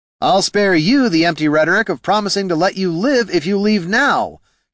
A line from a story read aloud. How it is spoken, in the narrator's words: shouted Heraldin